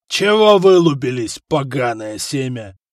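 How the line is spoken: Growled. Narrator (Russian): рыкнул Горан

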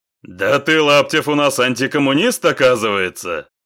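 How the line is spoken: Loud laughter. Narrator (Russian): захохотал Сергей

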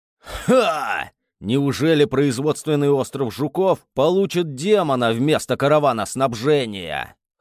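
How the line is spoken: Snorting. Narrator (Russian): хмыкнул он

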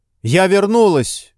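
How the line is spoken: Shout. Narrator (Russian): крикнула

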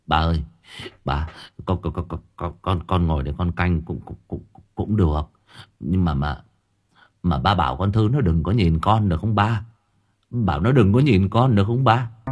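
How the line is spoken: Stammering. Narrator (Vietnamese): Nó lắp bắp

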